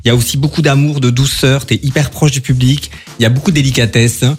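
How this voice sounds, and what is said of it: Melodic singsong French accent. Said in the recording (French): “c'est pas du tout un accent de Strasbourg que tu as là ... c'est beau, ça chante”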